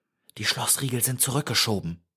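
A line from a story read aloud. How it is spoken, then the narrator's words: Breathed. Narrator (German): hauchte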